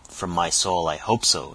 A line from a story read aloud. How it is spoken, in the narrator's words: exclaimed Lawton